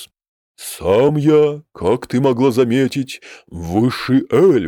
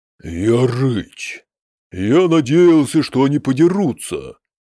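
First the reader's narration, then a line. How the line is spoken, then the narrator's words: Sighing. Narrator (Russian): вздохнул он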